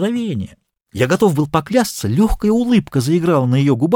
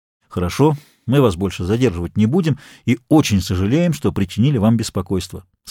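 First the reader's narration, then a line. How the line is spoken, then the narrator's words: Plain. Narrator (Russian): сказал инспектор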